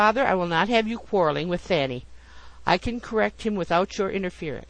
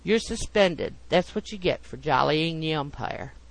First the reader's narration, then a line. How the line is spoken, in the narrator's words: said Rollo in a low tone